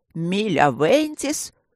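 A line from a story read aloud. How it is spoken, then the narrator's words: Growl. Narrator (Russian): рыкнул Горни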